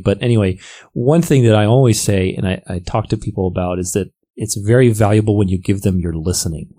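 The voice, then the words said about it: Slightly raspy voice. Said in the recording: “my voice is a little raspy. I'm running with this cold”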